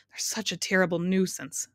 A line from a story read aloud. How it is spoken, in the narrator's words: sighed the mathematician